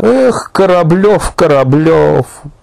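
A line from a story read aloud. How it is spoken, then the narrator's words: Sad, hopeless. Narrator (Russian): грустно и как-то безнадежно сказала Елизавета Николаевна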